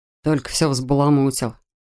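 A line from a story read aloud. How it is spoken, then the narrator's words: Grumbling. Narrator (Russian): проворчал Рэтчет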